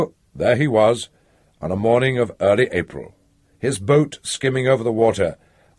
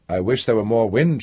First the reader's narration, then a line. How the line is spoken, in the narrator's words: she said